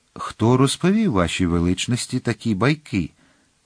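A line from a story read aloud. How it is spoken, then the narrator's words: Calm question. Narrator (Ukrainian): спокійно спитав пан Детревіль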